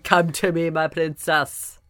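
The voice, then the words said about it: Mixture of many accents. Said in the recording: “it's every accent. I just did all of them all together.”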